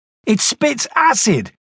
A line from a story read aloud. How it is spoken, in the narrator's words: Red yelled